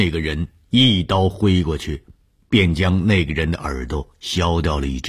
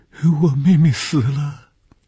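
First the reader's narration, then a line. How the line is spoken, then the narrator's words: Pitiful girl crying. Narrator (Chinese): 可怜的女孩，见着红鱼便哭起来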